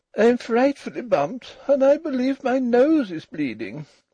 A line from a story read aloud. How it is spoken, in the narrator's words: said Ruth, still more plaintively